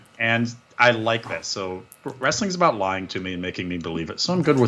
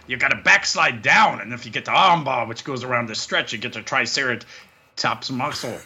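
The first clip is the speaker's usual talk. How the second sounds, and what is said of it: Imitates a wrestling commentator's voice. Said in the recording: “I don't do a Taz voice. ... Yeah, but, you do.”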